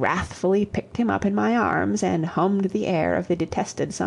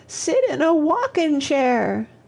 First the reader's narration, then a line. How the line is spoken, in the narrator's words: sobbed Toddie